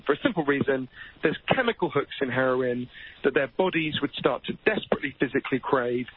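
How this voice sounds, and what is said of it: Posh British English accent. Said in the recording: “in Britain, where I'm from, as you can tell from my weird Downton Abbey accent”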